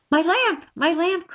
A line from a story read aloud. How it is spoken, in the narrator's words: cried Nycteris